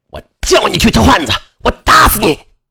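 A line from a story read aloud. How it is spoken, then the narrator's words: Husband roaring while hitting. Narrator (Chinese): 丈夫…边打还边吼道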